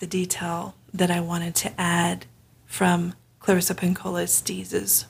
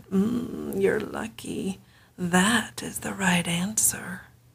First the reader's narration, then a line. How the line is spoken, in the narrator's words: Baba Yaga purred